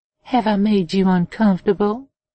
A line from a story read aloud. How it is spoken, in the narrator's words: She almost giggled